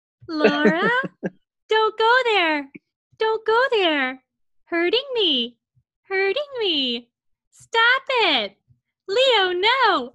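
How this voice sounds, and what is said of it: Imitates a talking bird's voice. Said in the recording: “I have to do my Waldo impression because I've been doing it for like 20 years”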